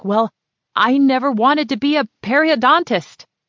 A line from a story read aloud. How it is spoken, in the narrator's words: she'd shout